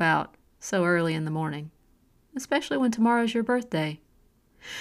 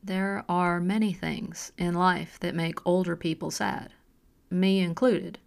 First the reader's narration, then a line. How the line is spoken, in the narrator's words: Ava replied